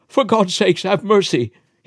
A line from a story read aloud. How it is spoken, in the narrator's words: he shrieked